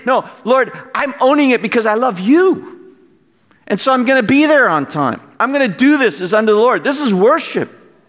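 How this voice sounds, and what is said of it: Yelling passionately. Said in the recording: “I'm yelling. ... I'm a little passionate about this point.”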